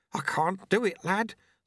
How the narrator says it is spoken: the sweeper mumbled

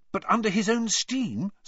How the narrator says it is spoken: said Hermione eagerly

